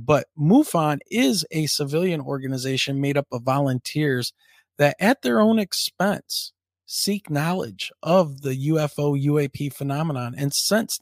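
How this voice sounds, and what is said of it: Scratchy, worn-out voice. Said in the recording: “my voice is sounding kind of scratchy ... my voice is a little chewed up right now”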